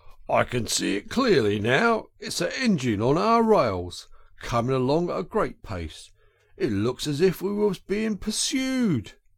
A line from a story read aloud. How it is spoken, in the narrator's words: he called out